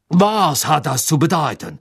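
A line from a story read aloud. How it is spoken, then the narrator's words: Called out. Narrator (German): rief er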